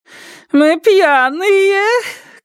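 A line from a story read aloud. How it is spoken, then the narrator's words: Woman shouting. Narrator (Russian): крикнула женщина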